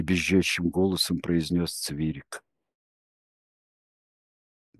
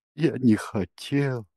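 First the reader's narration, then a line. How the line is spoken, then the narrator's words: Tearful, repeating. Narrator (Russian): повторял Цвирик плачущим голосом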